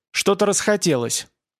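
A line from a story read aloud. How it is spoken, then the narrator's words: Angry retort. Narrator (Russian): бросила сердито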